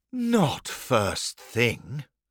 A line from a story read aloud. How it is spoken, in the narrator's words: Dad sighed